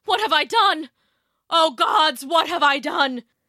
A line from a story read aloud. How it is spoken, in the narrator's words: he cried